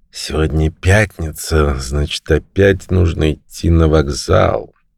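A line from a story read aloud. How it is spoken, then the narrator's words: Quietly said. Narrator (Russian): негромко сказал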